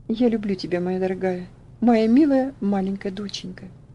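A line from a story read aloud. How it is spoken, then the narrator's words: Trembling voice. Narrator (Russian): он сказав дрогнувшим голосом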